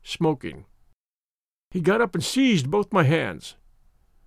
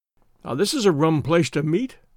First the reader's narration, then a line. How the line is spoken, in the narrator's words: I said